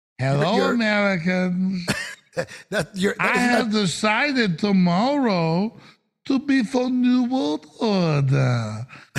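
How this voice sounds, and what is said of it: Mock Chinese accent. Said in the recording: “Do it in your China voice.”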